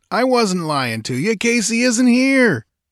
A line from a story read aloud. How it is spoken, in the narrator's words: jeered